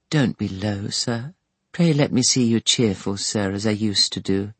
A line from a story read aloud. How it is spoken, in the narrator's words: Sparsit murmured